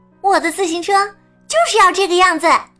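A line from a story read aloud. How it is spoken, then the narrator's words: Loud. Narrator (Chinese): 兔子 大声说道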